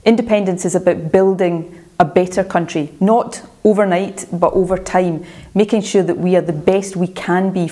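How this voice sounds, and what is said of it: Scottish accent. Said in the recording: “You can hear her Scottish accent there”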